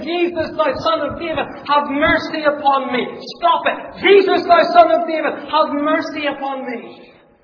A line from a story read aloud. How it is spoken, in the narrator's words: screaming over and over and over again